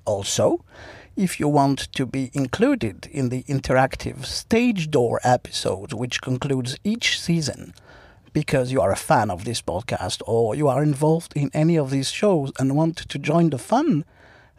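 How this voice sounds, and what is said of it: French accent. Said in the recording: “my beautiful French accent”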